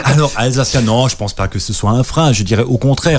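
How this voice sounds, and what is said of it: Alsatian accent in French. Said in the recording (French): “on ne parlait que l'alsacien. Et on le sent encore dans mon accent aujourd'hui quand je parle au quotidien”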